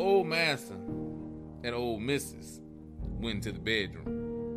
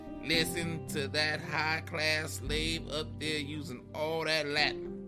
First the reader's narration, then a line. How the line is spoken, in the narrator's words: chuckled to his wife and said